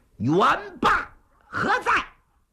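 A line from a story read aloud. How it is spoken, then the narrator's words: Loud shout. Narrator (Chinese): 李渊高声喊喝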